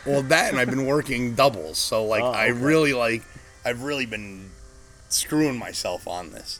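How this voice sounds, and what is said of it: Hoarse, strained, partly lost voice. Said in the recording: “you've hacked up three times already ... my voice went ... A little bit worse than this”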